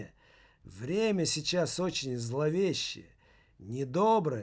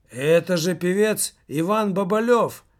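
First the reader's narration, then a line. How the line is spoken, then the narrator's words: Loud old woman's voice. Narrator (Russian): громко сказала одна из старушек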